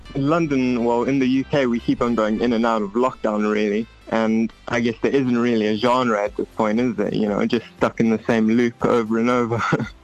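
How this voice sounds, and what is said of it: British accent. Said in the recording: “Oh, you even have the accent.”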